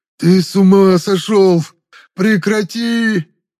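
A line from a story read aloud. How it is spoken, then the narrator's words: Desperate moaning. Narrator (Russian): Простонал Нор-Исим, уже не зная, как спастись от меня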